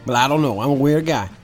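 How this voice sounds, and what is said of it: Weird put-on Italian accent, Texan-sounding. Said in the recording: “this Italian guy, who's got a very weird accent ... Are you from Texas ... my accent, it varies across the way”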